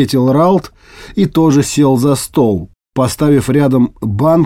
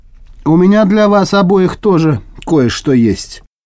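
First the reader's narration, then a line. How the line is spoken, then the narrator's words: Calm. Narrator (Russian): Эстра говорила спокойно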